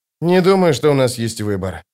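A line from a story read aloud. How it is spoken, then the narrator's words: Sigh. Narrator (Russian): вздохнул Остряк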